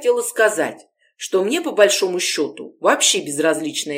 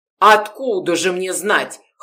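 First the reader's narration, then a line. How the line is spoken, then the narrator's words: Scoffing grunt. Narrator (Russian): хмыкнул Гордеев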